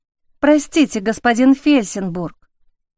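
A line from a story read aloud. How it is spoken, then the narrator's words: Guilty, forced out, young woman. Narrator (Russian): наконец виновато выдавила девушка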